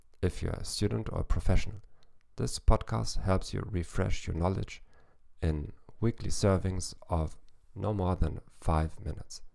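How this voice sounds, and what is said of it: German accent. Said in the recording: “with a German accent”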